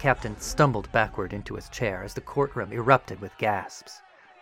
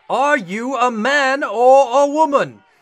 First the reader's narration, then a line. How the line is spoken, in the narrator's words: the veins in the captain's forehead bulged as he boomed